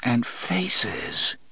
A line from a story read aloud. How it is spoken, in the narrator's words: he muttered